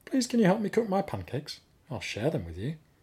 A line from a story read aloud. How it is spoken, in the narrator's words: he said, kindly